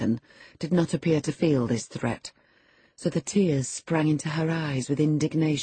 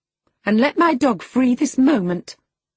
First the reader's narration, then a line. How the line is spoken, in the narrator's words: she exclaimed